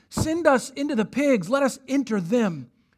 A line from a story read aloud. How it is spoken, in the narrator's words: they begged him, saying